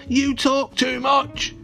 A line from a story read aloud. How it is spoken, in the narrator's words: yelled Father